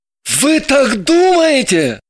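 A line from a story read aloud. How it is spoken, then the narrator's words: Nervous startled exclamation. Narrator (Russian): вскрикнул он, вскакивая и нервно поправляя воротничок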